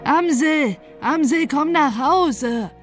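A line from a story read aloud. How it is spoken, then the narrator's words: Grandmother calling through window. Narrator (German): rief die Großmutter durchs Fenster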